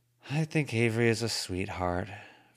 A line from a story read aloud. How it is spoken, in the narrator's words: Verona said, at the same time she sighed